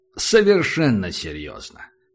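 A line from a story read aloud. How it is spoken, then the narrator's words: Snorting. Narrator (Russian): Морпех хмыкнул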